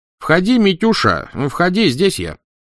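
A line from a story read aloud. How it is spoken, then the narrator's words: Loud reply. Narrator (Russian): громко откликнулся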